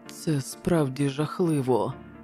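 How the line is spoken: Horrified muttering. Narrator (Ukrainian): бурмотів лорд Джон, котрого ця пожежа, здавалося, вжахнула більше, аніж усе інше

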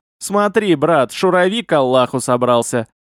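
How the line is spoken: Laughing. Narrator (Russian): засмеялся Хамид

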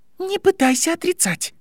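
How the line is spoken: Broken, halting voice. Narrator (Russian): прерывистым голосом произнесла Падма

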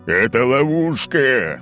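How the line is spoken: Roaring. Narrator (Russian): взревел Олимпий

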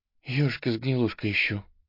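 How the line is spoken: Breathy exhale. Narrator (Russian): выдохнула она

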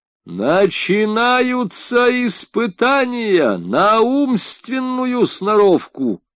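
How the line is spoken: Shouting elder giant. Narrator (Russian): крикнул старший великан

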